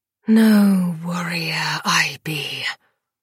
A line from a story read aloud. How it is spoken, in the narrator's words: Lily hissed